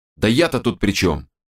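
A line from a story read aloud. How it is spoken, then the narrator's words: Snapping back. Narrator (Russian): Огрызнулся тот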